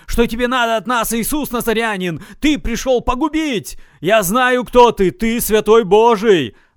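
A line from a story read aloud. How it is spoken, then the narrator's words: Shouting. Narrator (Russian): Он закричал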